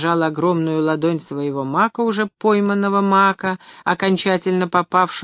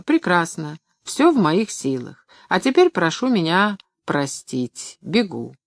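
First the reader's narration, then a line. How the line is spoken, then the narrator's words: Calm. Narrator (Russian): Вслух он сказал спокойно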